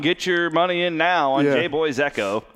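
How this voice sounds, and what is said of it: Horse racing announcer voice. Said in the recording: “That was a horse racing announcer's voice right there.”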